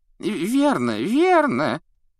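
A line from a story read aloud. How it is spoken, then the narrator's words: Thin squeaky voice. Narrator (Russian): тоненьким голоском поддержал коллегу малыш Флитвик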